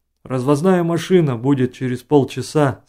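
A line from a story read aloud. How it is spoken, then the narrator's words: Plain. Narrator (Russian): сказал санитар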